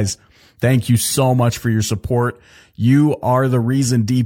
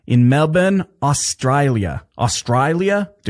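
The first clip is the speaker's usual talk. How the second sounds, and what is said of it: Bad put-on Australian accent. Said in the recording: “That's the worst Australian accent ever.”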